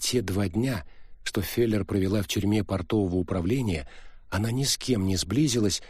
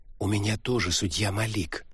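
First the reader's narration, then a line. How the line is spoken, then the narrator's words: Whispering woman. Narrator (Russian): прошептала мулатка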